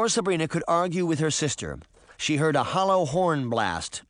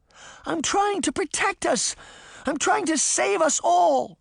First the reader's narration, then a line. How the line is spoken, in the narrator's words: Sabrina cried